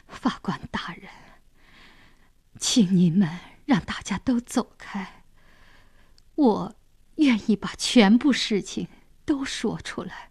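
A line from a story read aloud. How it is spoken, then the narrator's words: Stammering. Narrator (Chinese): 他结结巴巴地说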